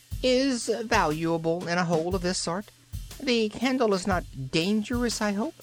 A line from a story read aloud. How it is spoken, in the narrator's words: it said somewhat nervously